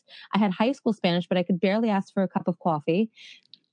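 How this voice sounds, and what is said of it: New York accent. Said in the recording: “my New York accent yeah. just totally came out there”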